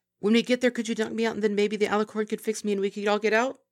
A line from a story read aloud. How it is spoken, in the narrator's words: said as quickly as possible